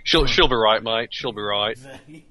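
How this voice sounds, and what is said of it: Put-on Australian accent. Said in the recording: “That's my best Australian accent, by the way. ... you're not living up to our stereotypes.”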